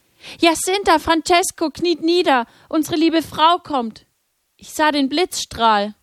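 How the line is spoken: Calling out. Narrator (German): rief

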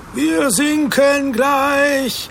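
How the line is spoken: Shouting. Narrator (German): schrie Matthäus

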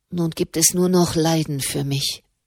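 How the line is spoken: Murmured. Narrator (German): murmelte

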